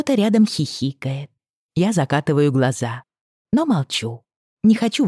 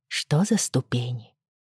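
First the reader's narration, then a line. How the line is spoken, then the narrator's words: Quiet question. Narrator (Russian): тихо спрашиваю я Идану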